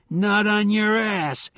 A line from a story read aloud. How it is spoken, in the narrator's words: shouted